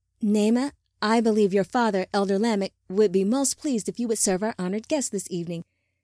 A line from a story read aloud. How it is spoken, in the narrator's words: Lita said, still smiling brightly